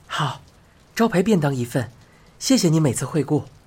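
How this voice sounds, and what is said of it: Cheerful bright voice. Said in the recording (Chinese): “他用开朗的声音说道”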